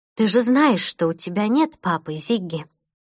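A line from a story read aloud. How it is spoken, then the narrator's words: Calm statement. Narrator (Russian): спокойно произнесла Джейн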